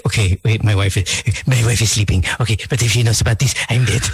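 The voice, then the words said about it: Imitates another person's voice. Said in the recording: “great voice impersonation. It's exacto na naman.”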